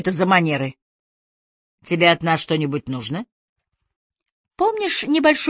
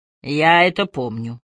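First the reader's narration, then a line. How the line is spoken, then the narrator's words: Man, gloomy. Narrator (Russian): мрачно сказал мужчина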